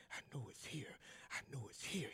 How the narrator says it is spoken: kept muttering

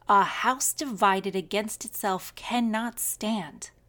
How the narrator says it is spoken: Lincoln said

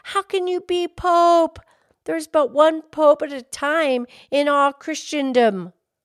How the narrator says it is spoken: the man exclaimed

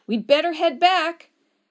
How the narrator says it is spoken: Cheryl shouted after a few seconds

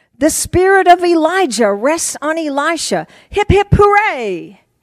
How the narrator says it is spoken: The ministerial students shouted

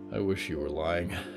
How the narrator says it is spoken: Jonah sighed

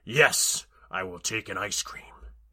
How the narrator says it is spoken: Ares growled

